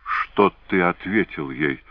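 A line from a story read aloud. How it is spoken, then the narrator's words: Timid question. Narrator (Russian): робко спросила Моро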